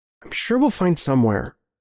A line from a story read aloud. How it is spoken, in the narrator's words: I said